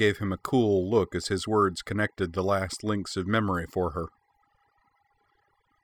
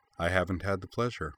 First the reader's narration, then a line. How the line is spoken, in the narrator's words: he replied smoothly